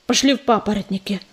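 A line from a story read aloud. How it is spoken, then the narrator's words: Gruff grunt. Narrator (Russian): буркнул он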